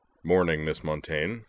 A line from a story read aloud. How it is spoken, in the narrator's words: rumbled